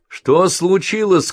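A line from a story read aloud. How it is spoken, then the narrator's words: Shout. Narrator (Russian): крикнул Бен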